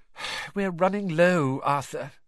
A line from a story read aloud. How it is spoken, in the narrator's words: she sighed